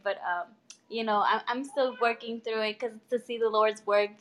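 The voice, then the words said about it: Choked-up, emotional voice. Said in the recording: “I get all nervous and I get choked up... she's a little choked up right now”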